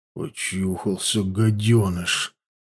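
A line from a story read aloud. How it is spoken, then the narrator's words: Through gritted teeth. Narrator (Russian): процедил Дичка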